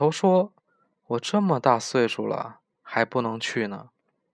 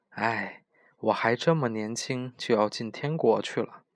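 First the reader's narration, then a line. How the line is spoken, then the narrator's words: Sighing. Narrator (Chinese): 小克劳斯叹气说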